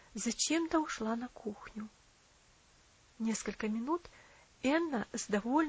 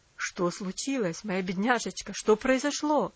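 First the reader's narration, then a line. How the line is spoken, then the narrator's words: Alarmed, surprised exclamation. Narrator (Russian): воскликнул он с тревогой и удивлением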